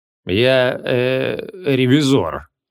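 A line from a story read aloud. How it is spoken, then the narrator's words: Mumbling. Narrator (Russian): промямлил архимаг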